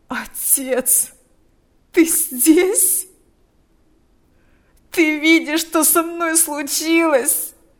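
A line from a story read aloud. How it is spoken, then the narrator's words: Moaning. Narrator (Russian): стонал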